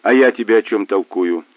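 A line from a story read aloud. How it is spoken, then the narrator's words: Snorting remark. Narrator (Russian): хмыкнул Мазур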